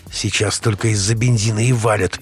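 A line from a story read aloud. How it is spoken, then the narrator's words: Through gritted teeth. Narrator (Russian): процедил Ростик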